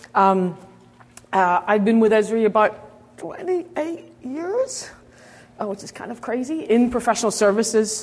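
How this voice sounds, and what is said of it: Strained, fading voice. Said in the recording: “I have a bit of a losing my voice already.”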